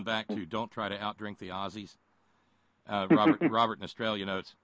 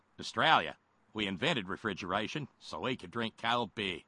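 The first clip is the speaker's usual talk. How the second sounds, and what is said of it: Put-on Australian accent. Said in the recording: “my Australian accent ... that's old Crocodile Kincaid”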